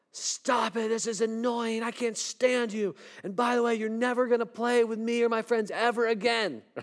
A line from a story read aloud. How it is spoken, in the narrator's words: Sherry yells at her and says